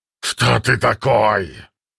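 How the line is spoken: Growl. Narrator (Russian): прорычал он

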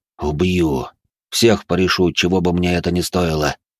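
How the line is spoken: Hissed through teeth. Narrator (Russian): процедил он сквозь зубы

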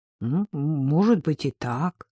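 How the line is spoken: Uncertain agreement. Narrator (Russian): неуверенно согласился Зуев

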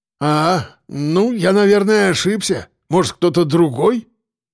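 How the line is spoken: Man grumbling. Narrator (Russian): Пробурчал мужик

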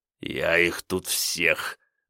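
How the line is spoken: Angry, through clenched teeth. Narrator (Russian): зло процедил Ганыкин

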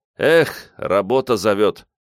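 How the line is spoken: Sighing man. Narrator (Russian): вздохнул мужчина

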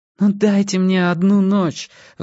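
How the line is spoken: Pleading. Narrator (Russian): взмолилась она

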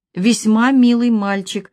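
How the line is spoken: Sigh. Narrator (Russian): вздохнул Владимир Семенович

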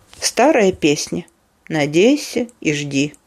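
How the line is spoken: Quiet speech. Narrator (Russian): тихо произнес Гомер

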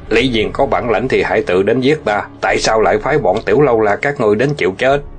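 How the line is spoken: Cold scoff. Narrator (Vietnamese): Hạng Thiếu Long lạnh lùng hừ một tiếng

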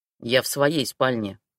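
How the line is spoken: Grumbling. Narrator (Russian): проворчал он

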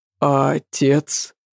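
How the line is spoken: Muffled, hollow question. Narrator (Russian): спросил Алексей Петрович глухо

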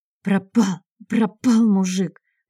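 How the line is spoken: Hoarse shouting. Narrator (Russian): выкрикивала она хрипло

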